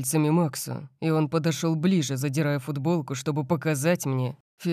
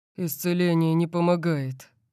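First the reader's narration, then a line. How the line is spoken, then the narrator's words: Groan. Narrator (Russian): простонал он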